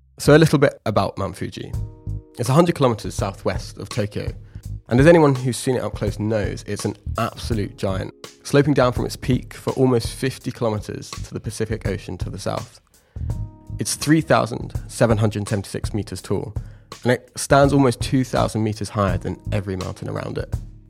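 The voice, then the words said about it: Congested voice, sounds like a cold. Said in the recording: “I sound like I have a cold right now”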